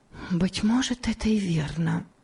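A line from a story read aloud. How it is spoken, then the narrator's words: Whispered to herself. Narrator (Russian): прошептала она про себя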